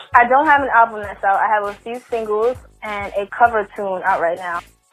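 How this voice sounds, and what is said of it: Slight New Jersey accent. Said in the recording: “I can hear a little accent ... Jersey, a little bit.”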